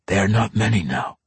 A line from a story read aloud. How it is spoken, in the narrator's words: Entreri whispered